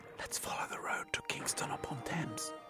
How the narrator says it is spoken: whispered

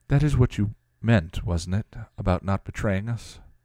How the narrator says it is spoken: Tara said softly

